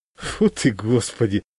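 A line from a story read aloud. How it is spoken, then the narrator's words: Laughing. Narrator (Russian): рассмеялся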